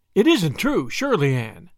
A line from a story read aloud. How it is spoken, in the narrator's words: exclaimed Gilbert